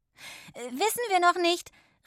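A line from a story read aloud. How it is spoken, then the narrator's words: Calling. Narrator (German): rief sie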